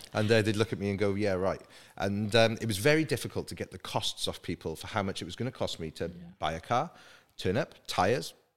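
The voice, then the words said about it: Welsh accent. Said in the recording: “in a Welsh accent”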